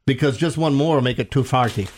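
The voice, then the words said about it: Put-on Irish accent. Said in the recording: “Why do you have an Irish accent for chili?”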